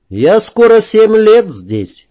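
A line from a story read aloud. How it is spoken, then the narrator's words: Cheerful reply. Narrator (Russian): весело ответил я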